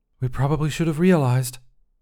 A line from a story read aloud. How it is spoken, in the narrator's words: Iona murmured